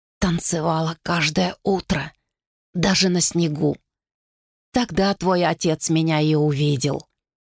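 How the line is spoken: Whisper in the ear. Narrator (Russian): шепнула на ухо

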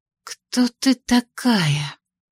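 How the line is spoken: Whisper. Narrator (Russian): прошептала

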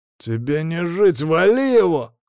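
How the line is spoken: Convict's shout. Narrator (Russian): крикнул зэк

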